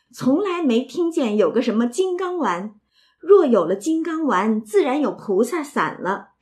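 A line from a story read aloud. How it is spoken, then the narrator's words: Laughing. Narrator (Chinese): 宝玉笑道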